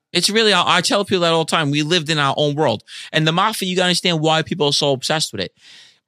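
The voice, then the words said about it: New York (Queens) accent. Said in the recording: “you got the accent still. Right. You're the last people that have a New York accent.”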